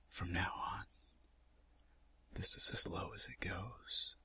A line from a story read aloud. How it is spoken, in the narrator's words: whispers